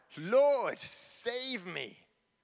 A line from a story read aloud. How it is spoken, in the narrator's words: he was afraid and, beginning to sink, cried out